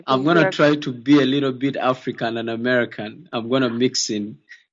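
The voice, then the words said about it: British accent. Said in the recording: “He's got a beautiful British accent”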